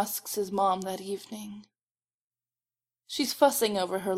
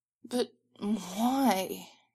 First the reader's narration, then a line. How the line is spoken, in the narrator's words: He whines